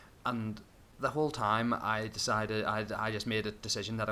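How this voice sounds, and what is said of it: Usual voice. Nothing is said of it.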